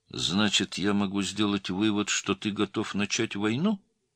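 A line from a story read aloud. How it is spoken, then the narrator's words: Calm question. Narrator (Russian): спокойно спросил Цапов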